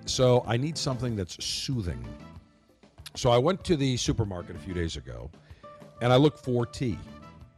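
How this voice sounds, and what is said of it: Slightly raspy voice. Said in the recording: “slight upper respiratory infection. That's why my voice sounds just a little bit raspier, a little bit different today”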